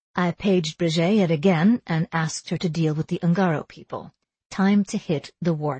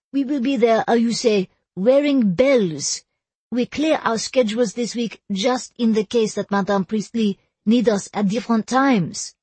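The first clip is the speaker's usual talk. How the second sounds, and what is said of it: Squealing thick French accent. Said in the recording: “squealed in a thick French accent.”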